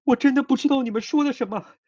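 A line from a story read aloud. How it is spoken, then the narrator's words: Tearful pleading. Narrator (Chinese): 郑秋却无能为力，只能不住的磕头，哭诉道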